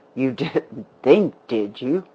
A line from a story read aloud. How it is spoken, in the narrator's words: the man laughed bitterly